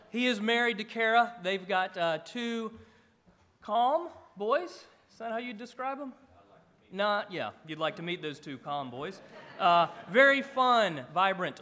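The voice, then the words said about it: Southern Georgia accent. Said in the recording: “mine's from Georgia”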